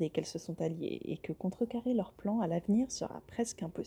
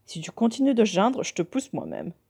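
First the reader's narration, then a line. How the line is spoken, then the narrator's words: Growled. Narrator (French): grogne Andrew en direction de Kevin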